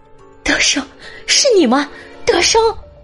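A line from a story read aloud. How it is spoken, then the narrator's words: Crying out, sobbing. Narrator (Chinese): 张英兰哭喊道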